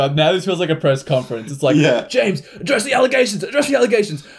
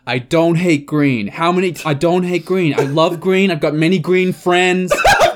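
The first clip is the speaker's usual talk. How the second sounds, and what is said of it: Put-on American accent. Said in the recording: “It was the American accent that did it.”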